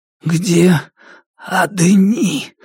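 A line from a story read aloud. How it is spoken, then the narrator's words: Only a wheeze. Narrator (Russian): попытался спросить он, но сумел лишь захрипеть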